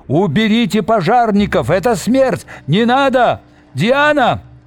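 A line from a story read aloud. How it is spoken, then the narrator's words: Confused shouts from crowd. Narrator (Russian): Неизвестно, кто и что кричал в толпе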